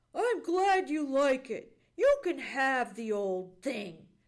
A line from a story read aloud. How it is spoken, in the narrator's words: snapped Johnny Chuck